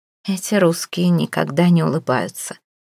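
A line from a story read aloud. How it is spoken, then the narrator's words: Muttering, turned away. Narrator (Russian): пробормотала, не поворачиваясь к собеседнику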